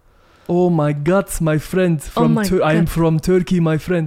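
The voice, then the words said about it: Put-on Middle Eastern accent. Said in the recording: “How about Middle Eastern? Can you do it?”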